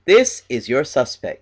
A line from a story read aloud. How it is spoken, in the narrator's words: says